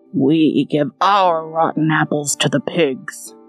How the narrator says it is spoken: growled the ogre

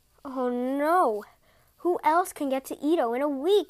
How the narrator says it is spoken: moaned

